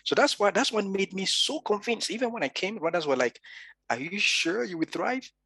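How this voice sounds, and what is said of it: Natural African accent. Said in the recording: “my natural African accent”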